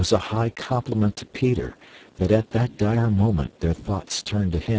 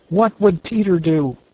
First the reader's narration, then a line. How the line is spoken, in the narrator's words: They cried simultaneously